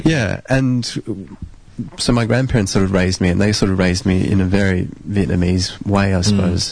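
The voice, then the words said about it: Australian accent. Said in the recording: “you don't have the accent, do you? You have a very Aussie accent.”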